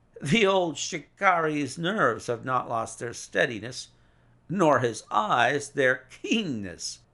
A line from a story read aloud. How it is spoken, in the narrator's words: said he with a laugh